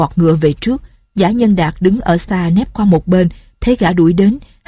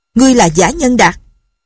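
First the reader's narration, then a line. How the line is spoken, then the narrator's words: Sudden shout. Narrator (Vietnamese): Lâm Bình Chi dừng cương ngựa, đột nhiên quát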